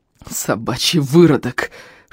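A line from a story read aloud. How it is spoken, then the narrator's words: Strained hiss. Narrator (Russian): шипел Эльм, стараясь выбраться из-под навалившегося на него рыбака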